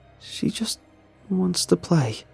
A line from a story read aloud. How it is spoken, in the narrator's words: the mother sobs